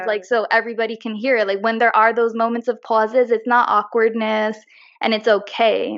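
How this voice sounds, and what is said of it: Slight New York accent. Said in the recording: “I hear a little accent coming through ... even if you're from New York”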